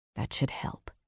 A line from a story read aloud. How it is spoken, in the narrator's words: he said softly